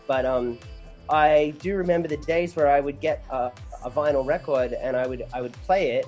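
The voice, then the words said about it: Mixed Australian and American accent. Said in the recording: “I grew up in Australia. I've been living in LA for 7 years now, hence the smooshed accent.”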